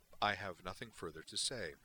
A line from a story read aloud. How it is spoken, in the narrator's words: Valeris replied flatly